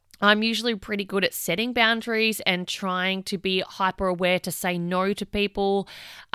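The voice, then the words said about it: Tired, run-down voice. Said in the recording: “as you can probably tell in my voice ... I'm pretty run down at the moment”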